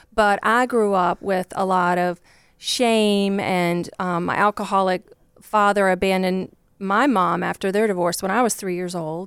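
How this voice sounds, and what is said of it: Southern Virginia country accent. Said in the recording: “you probably hear from my accent. I'm not from Chicago... I grew up just like a poor country girl from Virginia”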